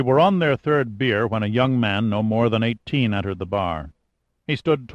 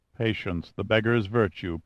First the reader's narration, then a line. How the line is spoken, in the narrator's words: Pitt murmured